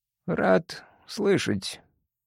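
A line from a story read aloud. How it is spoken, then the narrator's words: Mutter. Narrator (Russian): пробормотал он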